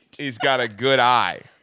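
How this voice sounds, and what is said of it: Put-on Australian accent. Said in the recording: “if you say it in an accent of Australia”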